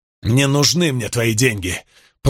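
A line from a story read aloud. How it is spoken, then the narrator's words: Merchant growling. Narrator (Russian): прорычал торговец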